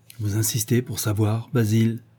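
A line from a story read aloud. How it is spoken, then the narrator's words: Low voice. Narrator (French): demanda d'une voix basse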